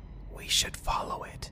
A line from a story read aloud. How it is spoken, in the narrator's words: Jim then whispered